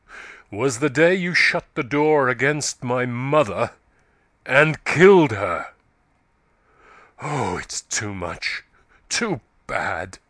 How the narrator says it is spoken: said Yeobright, his voice growing louder and harsher

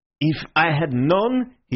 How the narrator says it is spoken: he spluttered

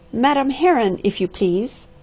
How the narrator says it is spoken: cried an acrid voice

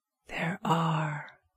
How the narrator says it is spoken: whispered Robert

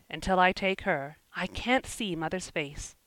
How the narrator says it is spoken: he muttered

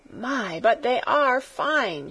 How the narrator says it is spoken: she cried

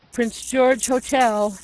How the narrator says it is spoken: he groaned at intervals

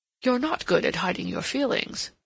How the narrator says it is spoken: he returned dryly

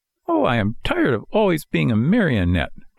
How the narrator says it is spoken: cried Pinocchio disgustedly

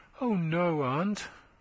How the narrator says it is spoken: murmured Thomason

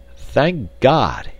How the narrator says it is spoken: he cried

